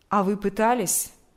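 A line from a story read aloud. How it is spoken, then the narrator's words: Plain. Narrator (Russian): спросил он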